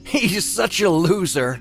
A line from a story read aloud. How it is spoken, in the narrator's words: Blake laughed